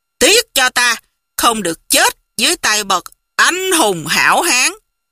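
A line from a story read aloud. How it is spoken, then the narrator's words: Harsh, clipped voice. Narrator (Vietnamese): gằn giọng nói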